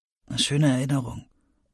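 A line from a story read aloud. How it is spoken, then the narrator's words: Quiet. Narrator (German): sagte Emmett leise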